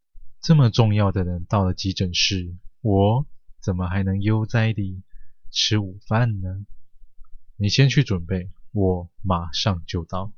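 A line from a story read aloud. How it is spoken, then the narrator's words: Cheerful, smiling. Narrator (Chinese): 陈明凡收起肃穆，微笑，说道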